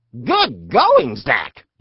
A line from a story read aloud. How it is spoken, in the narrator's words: yelled his butt